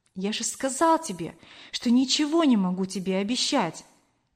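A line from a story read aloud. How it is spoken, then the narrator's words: Soft, trembling reply. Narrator (Russian): мягко ответил Кор, дрожа всем телом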